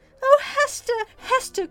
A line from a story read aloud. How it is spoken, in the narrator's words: cried Miss Rosamond